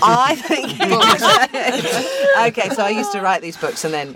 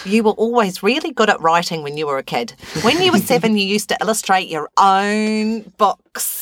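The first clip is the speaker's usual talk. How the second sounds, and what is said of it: Put-on New Zealand accent. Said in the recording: “I'll do a New Zealand accent.”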